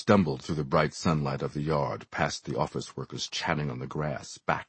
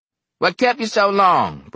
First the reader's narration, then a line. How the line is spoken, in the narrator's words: Brockway snapped